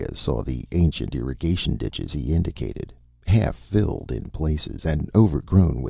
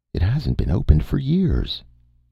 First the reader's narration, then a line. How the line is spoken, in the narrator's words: exclaimed